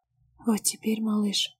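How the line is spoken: Stammering and gasping. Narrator (Russian): Запинается и судорожно хватает ртом воздух

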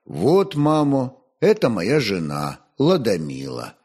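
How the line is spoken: Calm pronouncement. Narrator (Russian): Святослав спокойно изрек

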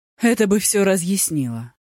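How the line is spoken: Relieved sigh. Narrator (Russian): с облегчением вздохнул судья Ди

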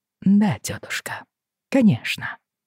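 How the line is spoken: Soft. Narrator (Russian): сказал Джейми мягко

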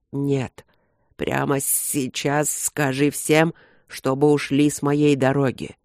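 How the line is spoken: Pained hiss. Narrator (Russian): прошипел Люк, корчась на кровати

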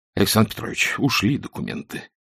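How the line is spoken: Sighing. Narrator (Russian): вздохнул Косоверьев

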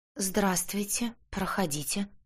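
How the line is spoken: Trembling voice. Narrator (Russian): дрожащим голосом сказала я

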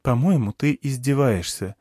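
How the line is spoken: Calm. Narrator (Russian): сказала Берана спокойно

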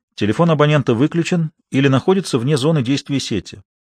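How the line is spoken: Cooing female voice. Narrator (Russian): проворковал женский голос

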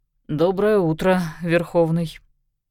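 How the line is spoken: Forced out, strained. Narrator (Russian): Лишь через несколько мгновений Богдан Сергеевич выдавил

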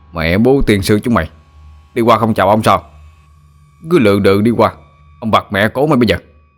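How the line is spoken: Furious yelling. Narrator (Vietnamese): Nó điên tiết quát lên

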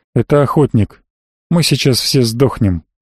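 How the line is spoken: Unnervingly calm. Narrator (Russian): как-то слишком спокойно сказал Фирл

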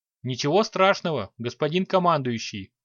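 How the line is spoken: Calm reply. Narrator (Russian): спокойно ответил Торлайдец

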